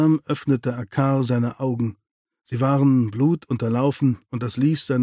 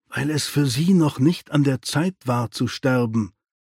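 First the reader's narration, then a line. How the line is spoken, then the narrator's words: Plain. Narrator (German): sagte Tufok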